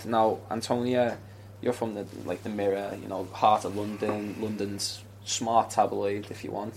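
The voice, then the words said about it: Northern English accent. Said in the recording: “as you can tell from my accent, I'm also from the north”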